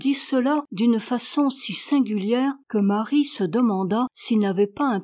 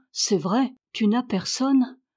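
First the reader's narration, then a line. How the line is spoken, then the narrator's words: Slow speech. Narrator (French): dit Ben Stoff lentement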